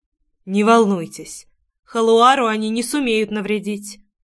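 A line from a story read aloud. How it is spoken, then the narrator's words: Softer, reassuring. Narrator (Russian): уже более мягко произнес Корн, явно поняв причину моего волнения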